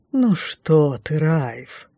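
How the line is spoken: Languid whisper. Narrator (Russian): томно прошептала ведьма

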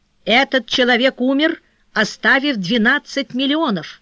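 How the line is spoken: Cold voice. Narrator (Russian): холодно добавил Вильямс

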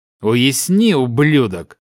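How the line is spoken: Angry old man, through teeth. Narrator (Russian): процедил разозленный старик

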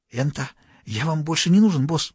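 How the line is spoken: Whisper. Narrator (Russian): прошептал он

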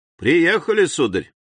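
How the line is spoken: Friendly repeated call. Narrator (Russian): лодочник самым приветливым голосом повторял ему

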